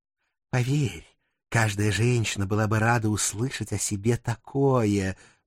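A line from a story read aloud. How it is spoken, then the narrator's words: Purring. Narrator (Russian): Мурлыкнула Азриэлла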